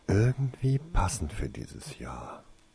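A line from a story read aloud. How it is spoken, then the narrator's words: Muttering to himself. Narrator (German): murmelte Tasein vor sich hin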